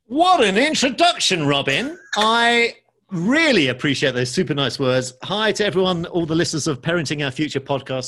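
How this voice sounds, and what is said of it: English accent. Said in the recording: “this guy with this English accent.”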